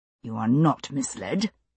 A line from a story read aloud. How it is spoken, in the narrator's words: he said through clenched teeth